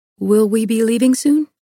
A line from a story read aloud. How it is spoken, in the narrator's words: I asked